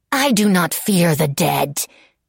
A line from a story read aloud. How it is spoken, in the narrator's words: she snarled